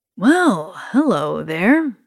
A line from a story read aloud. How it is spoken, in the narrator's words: he says, with a slight sneer